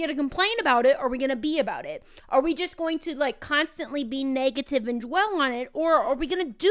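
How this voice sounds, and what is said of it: Usual voice. Nothing is said of it.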